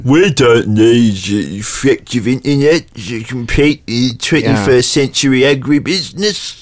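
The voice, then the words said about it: Put-on Cockney farmer voice. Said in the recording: “my farmer's a stupid voice ... I don't know why they're from East London. You don't get many Cockney farmers ... subconsciously chose the wrong accent”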